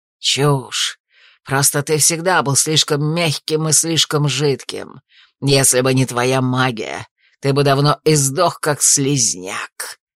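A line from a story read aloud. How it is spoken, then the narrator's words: Quiet hiss. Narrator (Russian): Тихо прошипел убийца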